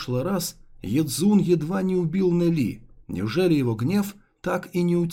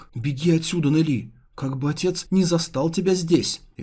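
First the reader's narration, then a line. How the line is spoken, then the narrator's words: Frightened exclamation. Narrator (Russian): испуганно воскликнула Цзюнь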